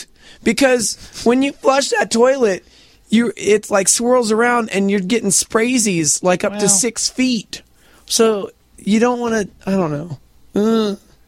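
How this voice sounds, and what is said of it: Hoarse, strained voice. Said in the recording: “Has anybody noticed that I'm actually losing my voice? ... Yeah, you are.”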